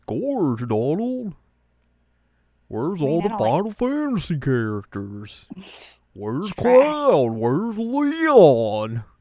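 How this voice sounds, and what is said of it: Bad Goofy impression, voice cracking. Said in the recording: “my voice cracked there for a hot second ... I just wanted to do my bad Goofy impression”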